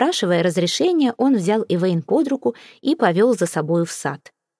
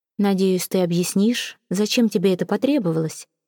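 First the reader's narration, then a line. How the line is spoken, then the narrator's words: Plain. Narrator (Russian): спросила графиня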